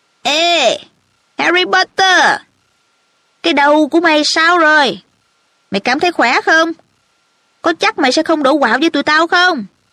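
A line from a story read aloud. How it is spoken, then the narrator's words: Loud taunting shout. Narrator (Vietnamese): Malfoy hét vang qua đại sảnh đường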